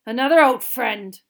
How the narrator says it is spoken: growled Moody

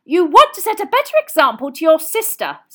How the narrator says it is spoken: snapped Mrs

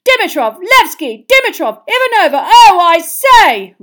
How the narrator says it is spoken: roared Bagman

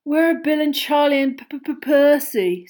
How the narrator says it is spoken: said George, failing to stifle a huge yawn

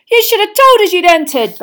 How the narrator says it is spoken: bellowed Fred

